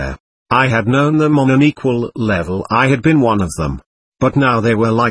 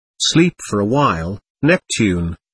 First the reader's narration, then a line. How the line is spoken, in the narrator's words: Lyra murmured softly